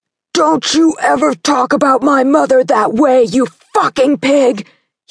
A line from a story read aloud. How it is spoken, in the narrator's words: he roared